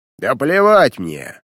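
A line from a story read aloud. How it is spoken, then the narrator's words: Bark. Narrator (Russian): рявкнул он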